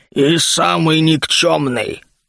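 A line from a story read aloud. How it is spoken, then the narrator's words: Growling archer. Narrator (Russian): рыкнул ему в ответ один из лучников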